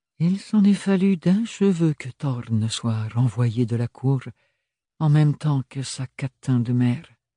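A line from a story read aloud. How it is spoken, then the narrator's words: Recomposed steady voice. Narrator (French): reprit-elle d'une voix recomposée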